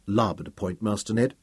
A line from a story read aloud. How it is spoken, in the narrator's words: said quietly